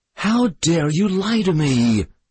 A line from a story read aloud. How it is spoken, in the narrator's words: she screamed, gasping between the blows